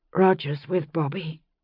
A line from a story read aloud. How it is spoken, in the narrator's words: she said, her voice colourless